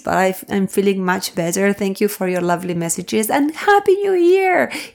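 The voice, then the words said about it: Slightly hoarse voice. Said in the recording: “my voice has come back. I'm still a little bit hoarse,”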